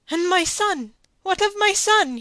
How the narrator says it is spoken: he cried out

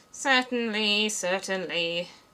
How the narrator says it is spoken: the king muttered

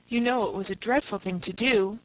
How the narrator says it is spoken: sighed Faith

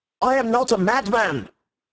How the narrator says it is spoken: he cried out

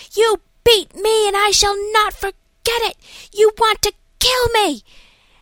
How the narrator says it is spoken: another screaming at some nurse saying

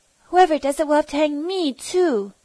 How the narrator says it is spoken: cried

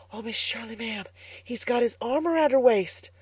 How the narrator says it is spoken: whispered Carlotta the Fourth delightedly

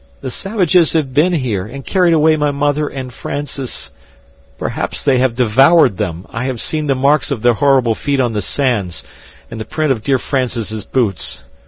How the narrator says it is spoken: he sobbed out

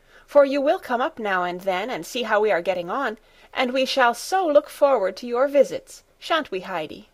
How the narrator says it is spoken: Clara called out

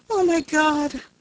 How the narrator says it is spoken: she cried

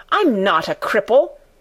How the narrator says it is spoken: he cried out furiously

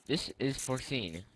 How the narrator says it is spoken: replied Mr

